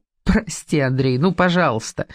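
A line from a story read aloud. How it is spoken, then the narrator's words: Uncontrollable laughter. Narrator (Russian): Она хохотала и не могла остановиться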